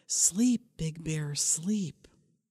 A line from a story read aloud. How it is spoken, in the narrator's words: Old Man whispered as it grew dark